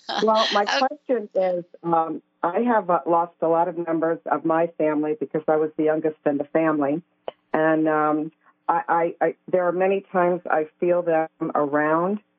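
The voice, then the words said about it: New York accent. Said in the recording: “it sounds like I'm talking to two New Yorkers right here, three of us”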